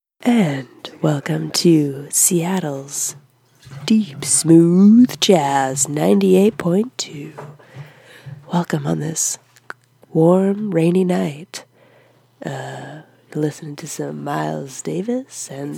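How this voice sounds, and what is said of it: Seattle smooth jazz radio host voice. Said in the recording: “I'm gonna do my Seattle impression ... My imaginary radio station is in friggin' Seattle”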